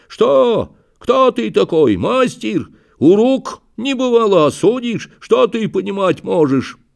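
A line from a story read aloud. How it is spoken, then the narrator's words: Shouting. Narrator (Russian): Прокопич закричал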